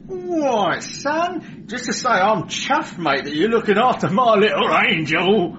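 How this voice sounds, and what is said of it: Chirpy Cockney accent. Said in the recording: “Cockney... chirpy”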